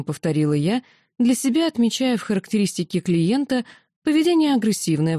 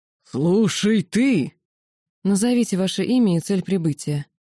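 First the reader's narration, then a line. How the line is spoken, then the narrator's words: Growled. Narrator (Russian): прорычала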